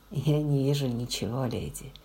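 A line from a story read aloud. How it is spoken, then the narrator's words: Soft. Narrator (Russian): мягко сказала она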